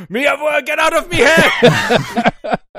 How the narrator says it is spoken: You hear a scream

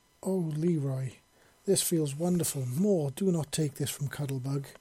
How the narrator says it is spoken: exclaimed loudly

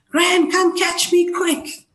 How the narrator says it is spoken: screamed again

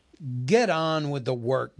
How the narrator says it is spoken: growled the butler

